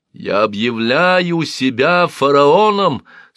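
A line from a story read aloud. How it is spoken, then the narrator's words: Shouting. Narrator (Russian): снова прокричала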